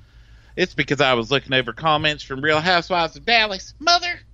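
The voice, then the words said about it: Strong Texas accent. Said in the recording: “Get your full-on Texas accent out today.”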